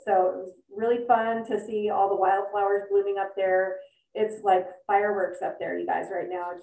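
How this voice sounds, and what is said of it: Husky, allergy-affected voice. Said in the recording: “you probably noticed by my voice, I've got this kind of really sexy voice thing going on because it's allergy season”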